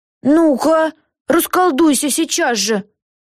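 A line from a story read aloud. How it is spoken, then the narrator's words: Screaming. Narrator (Russian): завопила она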